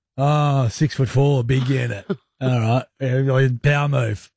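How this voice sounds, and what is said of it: Usual voice. Nothing is said of it.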